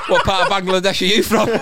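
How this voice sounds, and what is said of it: Put-on Bangladeshi accent. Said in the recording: “doing his Bangladesh accent.”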